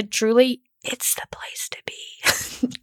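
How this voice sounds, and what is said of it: Quiet whisper. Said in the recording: “Could you hear that? ... do you need to turn the volume up on that? Can you hear me whisper?”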